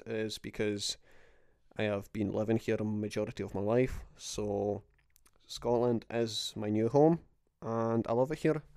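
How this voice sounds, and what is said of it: Slight Scottish accent. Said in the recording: “My nationality is Polish, but you might hear a little slight Scottish accent.”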